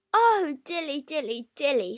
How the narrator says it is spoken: sighed Simpkin

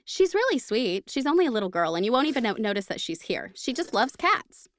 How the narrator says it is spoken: she quickly added

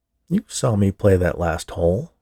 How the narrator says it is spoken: Scott answered

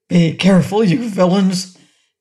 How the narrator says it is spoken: a gruff voice cried

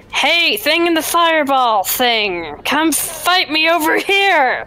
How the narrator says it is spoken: Real loudly

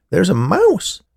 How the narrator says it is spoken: Muriel exclaimed

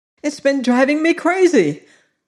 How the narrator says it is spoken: wailed Haynes feverishly

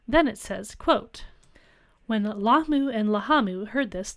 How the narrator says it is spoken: they cried out aloud

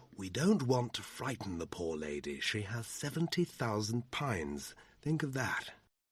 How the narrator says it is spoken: he added quietly

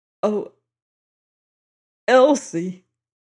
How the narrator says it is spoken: cried Hal in a heartbreaking voice

